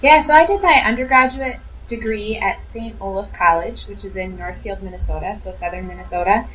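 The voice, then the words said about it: Noticeable regional accent. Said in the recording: “are you laughing at my accent?”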